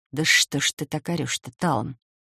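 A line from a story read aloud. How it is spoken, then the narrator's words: Pained moan. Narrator (Russian): Болезненно сморщившись, простонала я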